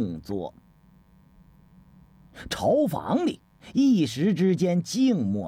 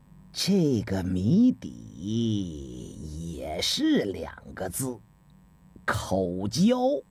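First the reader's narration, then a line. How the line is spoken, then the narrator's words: Slow drawl. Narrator (Chinese): 程文慢吞吞地说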